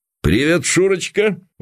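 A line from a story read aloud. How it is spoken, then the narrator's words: Exclaiming. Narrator (Russian): воскликнул Константин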